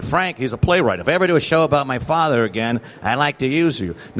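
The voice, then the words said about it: Imitates another person's voice. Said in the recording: “that's a great Arthur Marx imitation”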